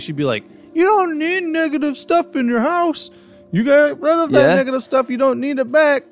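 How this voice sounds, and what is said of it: Imitates another person's voice. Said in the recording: “my Newsroom Nessie impersonation ... it was on point”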